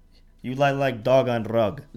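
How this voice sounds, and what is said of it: Put-on accent with rolled R's. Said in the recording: “That was a good accent... Like the rolling of the R.”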